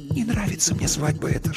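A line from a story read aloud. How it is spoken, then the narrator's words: Whisper. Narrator (Russian): шепнула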